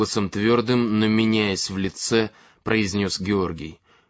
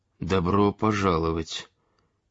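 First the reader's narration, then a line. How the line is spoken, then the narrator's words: Quiet repetition. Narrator (Russian): тихо повторили Зденка и Петр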